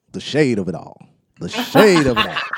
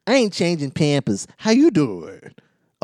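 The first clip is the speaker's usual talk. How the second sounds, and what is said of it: Imitates another person's voice. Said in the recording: “That was a pretty good impersonation you did there. Better than some of your others.”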